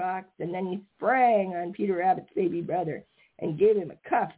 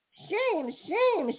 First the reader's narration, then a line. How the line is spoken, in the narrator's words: shouted the Merry Little Breezes